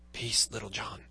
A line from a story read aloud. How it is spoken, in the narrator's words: said Robin in a low voice